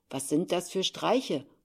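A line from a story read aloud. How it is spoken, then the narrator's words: Calling out. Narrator (German): rief er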